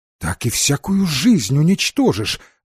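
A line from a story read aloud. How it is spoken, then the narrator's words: Exclaiming. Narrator (Russian): воскликнул Марк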